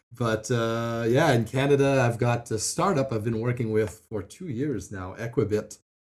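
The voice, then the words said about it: French Canadian accent. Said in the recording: “that's where the French accent comes from”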